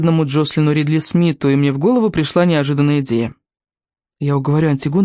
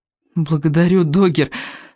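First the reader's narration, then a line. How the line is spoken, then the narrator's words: Strained tearful voice. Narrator (Russian): выдавила, и мои глаза наполнились слезами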